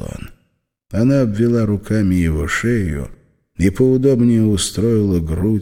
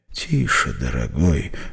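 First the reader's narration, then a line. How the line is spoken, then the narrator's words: Whisper. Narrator (Russian): зашептала Мизери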